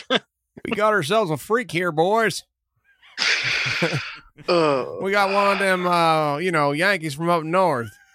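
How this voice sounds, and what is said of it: Put-on Southern US accent. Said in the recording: “I don't know if that was a good southern accent”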